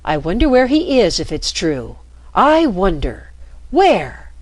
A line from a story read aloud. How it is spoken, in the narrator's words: exclaimed Marco